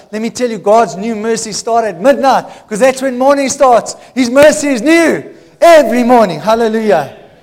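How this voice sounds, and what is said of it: Loud excited shouting preacher. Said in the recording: “I think I'm going to stop shouting. I'm scaring the children.”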